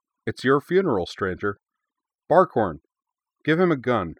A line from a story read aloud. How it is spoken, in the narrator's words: She laughed, a big, booming, head-back sound of genuine merriment that seemed too large to have come out of such a small woman, and said